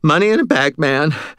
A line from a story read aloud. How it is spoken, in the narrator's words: Stan panted